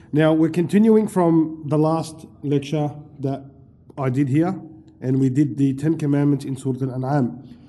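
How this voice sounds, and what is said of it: Voice changed by a cold. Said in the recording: “I've got a bit of a cold... my voice is a bit changed”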